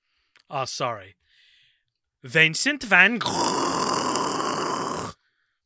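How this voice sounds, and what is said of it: Put-on Dutch accent. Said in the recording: “That was my Dutch accent.”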